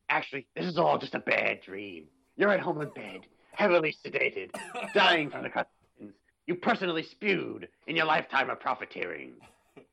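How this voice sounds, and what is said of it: Gruff penguin-like impression voice. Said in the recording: “my best Danny DeVito that I could come up with. I had to turn it into like a gruffy penguin voice.”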